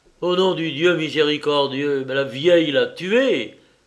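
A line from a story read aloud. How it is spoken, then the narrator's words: Exclaimed. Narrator (French): s'écria-t-il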